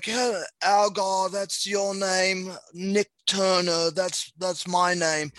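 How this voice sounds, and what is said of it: Imitates another person's voice, poorly. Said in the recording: “do a terrible impression because my accents are horrible”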